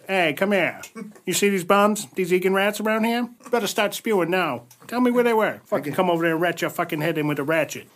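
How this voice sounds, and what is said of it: Old-time movie gangster accent. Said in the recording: “the exact same accent he was doing a gangster with”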